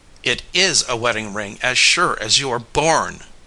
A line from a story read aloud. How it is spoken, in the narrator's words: cried Tom